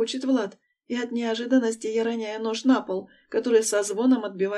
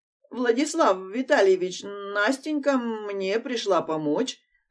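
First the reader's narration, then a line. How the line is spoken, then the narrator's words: Flustered frightened mumble. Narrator (Russian): Растерянно бормочет женщина, поняв, что ей сейчас по самое не хочу влетит от хозяина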